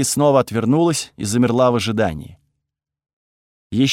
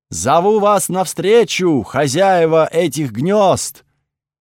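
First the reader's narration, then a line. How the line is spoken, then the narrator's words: Shouted skyward. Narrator (Russian): крикнула она в чернеющее небо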